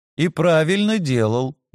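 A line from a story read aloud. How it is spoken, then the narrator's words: Snort. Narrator (Russian): я хмыкнул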